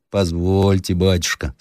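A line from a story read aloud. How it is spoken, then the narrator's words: Plain, old man. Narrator (Russian): сказал старик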